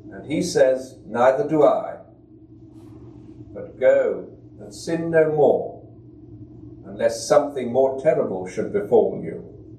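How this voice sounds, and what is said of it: British accent. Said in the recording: “he has a British accent”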